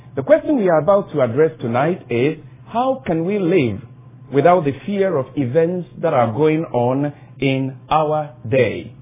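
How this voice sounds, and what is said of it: Noticeable non-native accent. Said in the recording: “I am conscious of my accent ... you can be able to decipher my diction in case my accent stands in the way”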